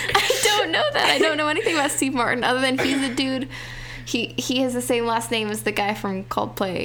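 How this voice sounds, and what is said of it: Usual voice. Nothing is said of it.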